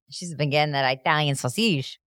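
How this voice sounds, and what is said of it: Put-on Italian accent sounding French. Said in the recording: “The accent. ... That sounded French.”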